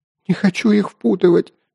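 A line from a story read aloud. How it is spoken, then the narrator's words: Sobbing hint. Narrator (Russian): не прекращая рыдать, попыталась намекнуть Катя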